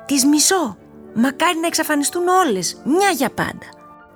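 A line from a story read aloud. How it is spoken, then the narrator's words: Shout. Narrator (Greek): φώναξε Μελίνα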